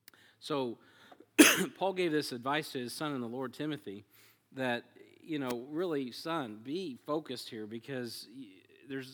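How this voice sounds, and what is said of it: Strained, struggling voice. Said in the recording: “My voice is stronger today than it was Sunday, but my vocal cords are not, evidently. So they're giving me some grief here.”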